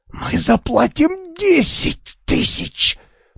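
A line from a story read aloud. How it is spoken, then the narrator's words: Hissed. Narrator (Russian): прошипел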